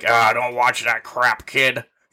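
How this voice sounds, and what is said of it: Imitates another person's voice. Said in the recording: “Your dad's impersonation, by the way.”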